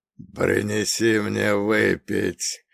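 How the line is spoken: Hoarse wheeze, in German. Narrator (Russian): прохрипел по-немецки Грейс

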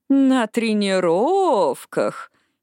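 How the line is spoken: Drawled. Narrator (Russian): протянула Эшли

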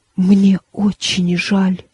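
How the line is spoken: Whispering. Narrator (Russian): прошептала она

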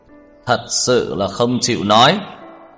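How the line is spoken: Loud, cold, angry question. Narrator (Vietnamese): Tưởng Thiên Lỗi cao giọng, lạnh lùng, tức giận hỏi

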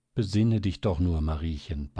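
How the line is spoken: Tender pleading. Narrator (German): bat sie endlich mit zärtlicher Stimme

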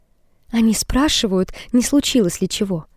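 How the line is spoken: Quiet. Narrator (Russian): Тихо говорит она ему

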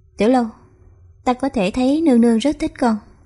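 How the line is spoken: Smiling speech. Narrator (Vietnamese): Khánh Vương Phi bất giác mỉm cười nói

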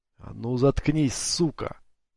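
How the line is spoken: Hissing. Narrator (Russian): прошипел Коин

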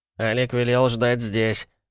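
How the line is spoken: Bleating, stammering young voice. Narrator (Russian): блеющим голоском заикнулся младший Петров

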